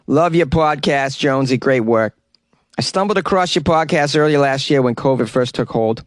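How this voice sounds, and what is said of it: Put-on Boston accent. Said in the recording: “Maybe I should read this with a Boston accent.”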